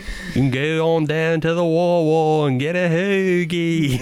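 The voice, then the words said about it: Put-on Philadelphia accent. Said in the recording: “this is the Philly accent.”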